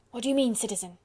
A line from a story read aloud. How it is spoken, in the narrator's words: queried Collot anxiously